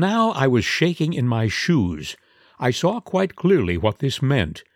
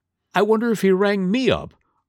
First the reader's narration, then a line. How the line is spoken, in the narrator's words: exclaimed, as if inspired